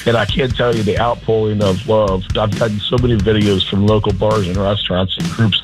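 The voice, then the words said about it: Hoarse, worn-out voice. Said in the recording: “Still a little hungover. I've lost my voice.”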